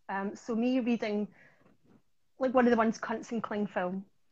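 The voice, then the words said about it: Strong regional accent. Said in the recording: “if I say it in my accent ... Maybe I will have to provide some sort of subtitle if they don't get the accent.”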